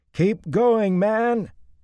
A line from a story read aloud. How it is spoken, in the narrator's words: shouted at the top of his lungs